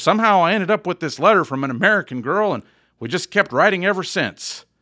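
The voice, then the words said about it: Put-on American southern accent. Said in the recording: “I just gave this English guy a southern accent.”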